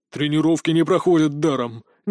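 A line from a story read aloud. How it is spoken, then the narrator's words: Displeased snort. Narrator (Russian): недовольно фыркнул он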